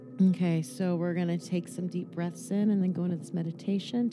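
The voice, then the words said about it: Lower, calmer voice. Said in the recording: “Let me lower my tone of voice.”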